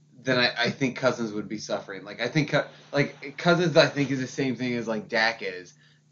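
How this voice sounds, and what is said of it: Slurred speech. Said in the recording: “I'm slurring my shit, but that's also because I've been drinking for a while.”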